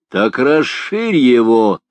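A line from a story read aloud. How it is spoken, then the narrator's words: Angry shout. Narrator (Russian): злобно крикнул Тристан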